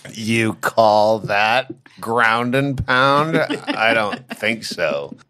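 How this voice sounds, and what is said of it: Smarmy Tony Hinchcliffe impression. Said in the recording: “I don't know if I could do a Tony Hinchcliffe impression ... it would be smarmy like that ... I want to do Tony Hinchcliffe. Like, what's that guy from fucking Hollywood Squares? Paul. Paul Lynde.”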